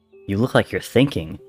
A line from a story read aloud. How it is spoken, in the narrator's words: said George